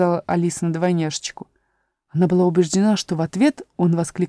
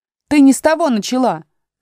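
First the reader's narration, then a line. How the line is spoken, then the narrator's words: Shout. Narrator (Russian): закричал двойнюшечка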